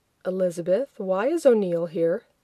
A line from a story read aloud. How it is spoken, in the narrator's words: Keeping his voice low, John asked